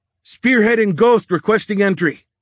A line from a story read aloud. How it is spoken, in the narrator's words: Nielsen shouted into the radio